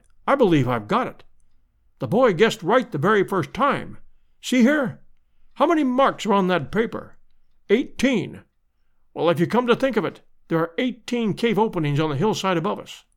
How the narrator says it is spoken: cried

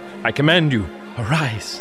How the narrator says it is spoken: murmured

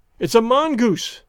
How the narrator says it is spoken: cried

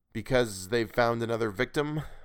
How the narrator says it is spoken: I said, forcing a little laugh

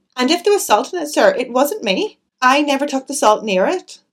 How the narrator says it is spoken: Annie had been growing redder and redder in the face, and now she blurted out unexpectedly

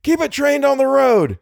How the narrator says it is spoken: shouted Little

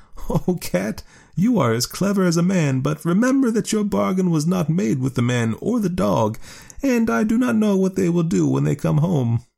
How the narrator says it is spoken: the woman laughed and said

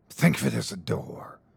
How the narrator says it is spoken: hissed the gatekeeper

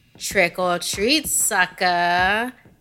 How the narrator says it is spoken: taunted

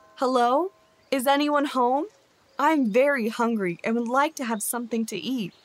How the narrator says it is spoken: called out

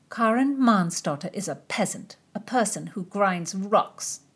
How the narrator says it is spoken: Doradai grumbled

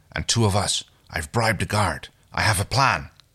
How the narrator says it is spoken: he whispers to her

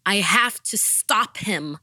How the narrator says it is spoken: shouted

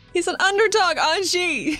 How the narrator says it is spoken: She shouts from under her pillow

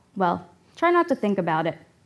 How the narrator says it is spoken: says

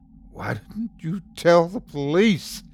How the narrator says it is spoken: I asked frantically

